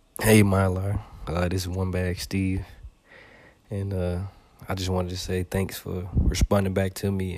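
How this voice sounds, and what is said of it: Southern US drawl. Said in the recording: “my southern drawl”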